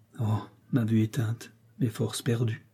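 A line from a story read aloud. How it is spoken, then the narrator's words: Pained murmur. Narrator (French): murmura-t-il d'un accent douloureux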